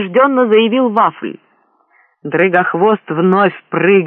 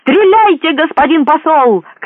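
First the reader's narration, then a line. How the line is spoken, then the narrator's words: Shouting. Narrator (Russian): крикнул он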